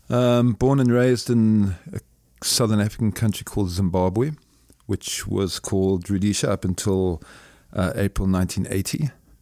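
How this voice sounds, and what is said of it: Deep Zimbabwean accent. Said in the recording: “you are the first real deep accent that I've had on the podcast ... You're clearly not from St. Louis”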